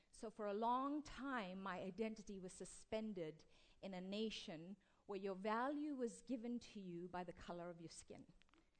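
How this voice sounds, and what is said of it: South African accent. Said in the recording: “my accent ... I come from South Africa”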